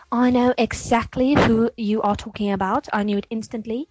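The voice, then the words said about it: Put-on British accent. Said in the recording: “It's your British girl here again. Excuse the accent. I first dared to speak British.”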